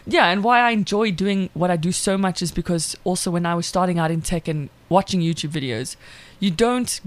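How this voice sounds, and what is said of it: South African accent. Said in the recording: “my accent and my voice ... the South African accent”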